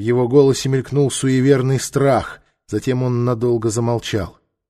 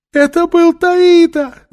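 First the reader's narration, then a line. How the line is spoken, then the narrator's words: Shrieked. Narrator (Russian): завизжал Салет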